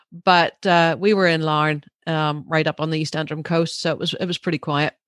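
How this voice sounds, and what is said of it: Thick Northern Irish accent. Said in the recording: “my accent probably got really thick when I just said that”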